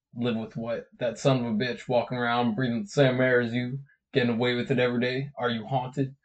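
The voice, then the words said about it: Imitates a film character's voice. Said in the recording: “trying to do my Elvis voice.”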